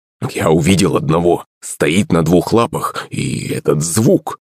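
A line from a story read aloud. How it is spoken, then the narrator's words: Muttering man. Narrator (Russian): Бормотал мужик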